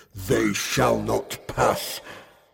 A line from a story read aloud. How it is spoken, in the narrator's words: bellow